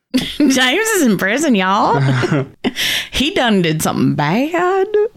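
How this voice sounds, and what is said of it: Put-on Southern US accent. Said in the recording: “That was terrible accent I did... Why is it going out southern?... I think it's only going to come out southern.”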